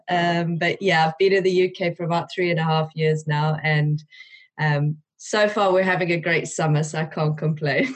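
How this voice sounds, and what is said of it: South African accent. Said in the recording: “You have got a beautiful, beautiful twang there of an accent. ... I am originally from South Africa”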